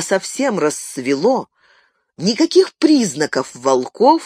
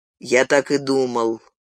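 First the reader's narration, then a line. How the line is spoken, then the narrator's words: Grim declaration. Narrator (Russian): мрачно заявил Гэндальф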